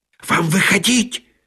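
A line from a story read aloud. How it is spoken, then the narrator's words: Hissing. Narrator (Russian): прошипел помощник режиссера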